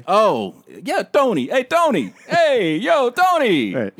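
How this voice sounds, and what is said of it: Put-on Italian-American accent. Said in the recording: “I'm doing a white voice... That's not a white guy voice... Italian.”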